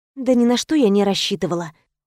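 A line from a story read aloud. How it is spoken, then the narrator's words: Sighing. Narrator (Russian): вздохнула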